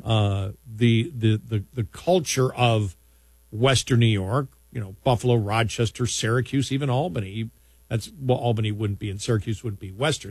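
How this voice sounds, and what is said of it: Buffalo (Western New York) accent. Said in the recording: “I'm from Buffalo. I have a Buffalo accent.”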